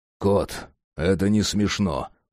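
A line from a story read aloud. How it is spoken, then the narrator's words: Grumbled. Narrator (Russian): буркнул Джек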